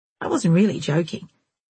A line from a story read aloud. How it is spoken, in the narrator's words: Jezebel said